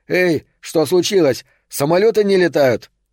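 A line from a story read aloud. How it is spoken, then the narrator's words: Desperate shout. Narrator (Russian): в отчаянии прокричал, обращаясь к ближнему полицейскому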